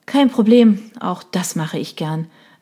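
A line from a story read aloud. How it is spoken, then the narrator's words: Sighing reply. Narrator (German): erwiderte Michelle seufzend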